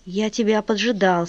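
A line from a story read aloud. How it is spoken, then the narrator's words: Plain. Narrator (Russian): сказал он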